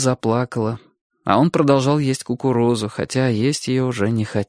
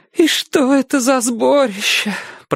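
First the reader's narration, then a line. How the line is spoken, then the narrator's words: Tearful mother. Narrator (Russian): продолжала мать сквозь слезы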